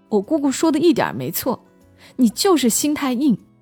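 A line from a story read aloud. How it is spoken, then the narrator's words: Yelling. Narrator (Chinese): 泡面男后来吼了他一句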